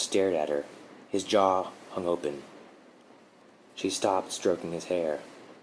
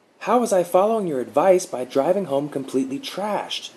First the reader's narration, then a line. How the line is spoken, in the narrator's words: Mark blurted